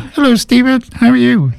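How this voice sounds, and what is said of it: Imitates another person's voice. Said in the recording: “I was going to try and do an impersonation.”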